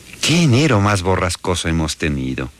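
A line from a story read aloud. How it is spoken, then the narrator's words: Exclaiming. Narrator (Spanish): exclamó la vecina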